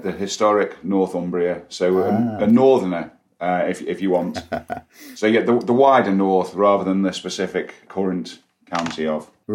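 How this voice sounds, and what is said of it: Liverpudlian accent twang. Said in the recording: “you've got a kind of a Liverpudlian accent twang going on there”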